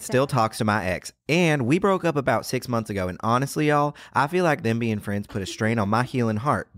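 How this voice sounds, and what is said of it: Reads aloud in put-on accent. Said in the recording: “let me read this with an accent”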